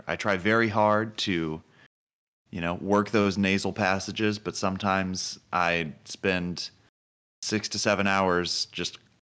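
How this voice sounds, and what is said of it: Voice lower than usual. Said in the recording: “slept with my mouth open ... my voice is a little bit lower”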